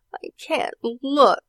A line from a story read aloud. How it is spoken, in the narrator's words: whimpered his sister Allison